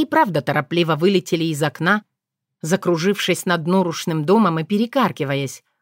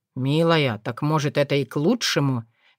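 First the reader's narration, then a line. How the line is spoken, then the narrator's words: Soft hint. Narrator (Russian): мягко намекнул Корунд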